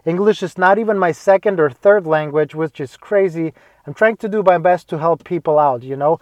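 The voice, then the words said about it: Non-native English accent. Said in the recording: “I still have an accent, but I hope you can understand me.”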